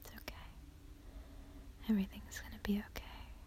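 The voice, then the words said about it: Soft intimate whisper. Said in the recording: “I'm whispering in your ear ... my voice tickles you a little bit”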